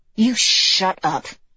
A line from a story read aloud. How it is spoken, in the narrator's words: Trip hissed